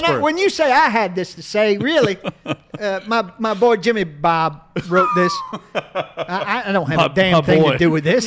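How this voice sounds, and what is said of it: Imitates another person's voice. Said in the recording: “may have to do this in a Spurrier accent.”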